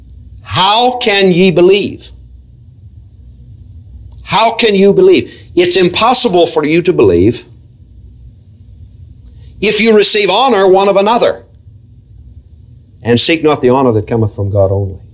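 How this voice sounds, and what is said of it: Slow deliberate reading. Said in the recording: “I'm going to read this slowly.”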